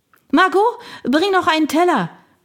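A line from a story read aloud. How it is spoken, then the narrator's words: Shouting across rooms. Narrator (German): brüllte Agnès zur Küche hinüber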